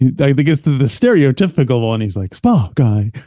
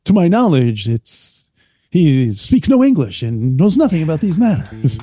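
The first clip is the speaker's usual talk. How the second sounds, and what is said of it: Bad Captain Kirk impression. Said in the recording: “We got to do a bad Kirk impression... That's terrible.”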